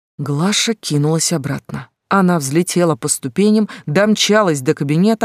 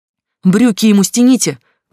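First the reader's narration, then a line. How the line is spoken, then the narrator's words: Shouted. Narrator (Russian): крикнула Глаша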